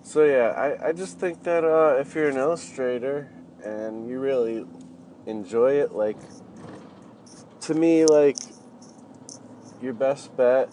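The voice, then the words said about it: Congested, sniffly voice from a cold. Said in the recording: “sorry for the sniffling again. I have a cold.”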